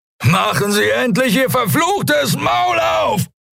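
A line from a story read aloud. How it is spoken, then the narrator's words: Shouting. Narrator (German): schrie er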